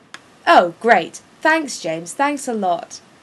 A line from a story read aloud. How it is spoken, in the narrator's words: Sirius yells to James's back